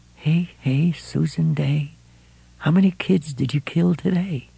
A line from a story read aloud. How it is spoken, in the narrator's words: a voice whispered